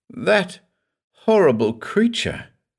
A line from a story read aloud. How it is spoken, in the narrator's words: choked